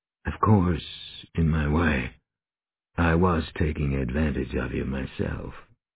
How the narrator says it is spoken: He added softly

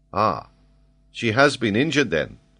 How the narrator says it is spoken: said Ayrton

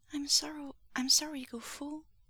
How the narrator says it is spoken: he said quietly

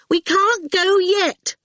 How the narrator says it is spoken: Awful insisted loudly

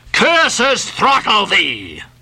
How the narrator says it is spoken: yelled Ahab

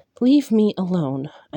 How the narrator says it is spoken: I said

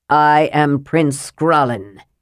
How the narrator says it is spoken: he said, and his voice was stern and cold and not Flint's own

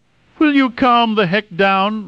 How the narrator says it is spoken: Rayton shouted

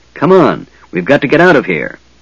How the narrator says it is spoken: Tanis said urgently

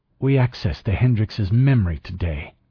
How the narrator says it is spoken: Ortega said coldly

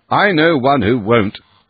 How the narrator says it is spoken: said the doctor sharply

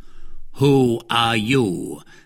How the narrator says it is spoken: said the same voice in the same commanding tone

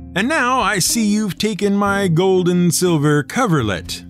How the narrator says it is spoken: hollered the troll

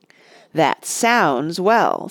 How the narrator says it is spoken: sneered Saruman

